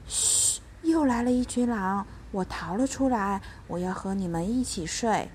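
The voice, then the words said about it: Quiet, whispered voice. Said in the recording (Chinese): “小声”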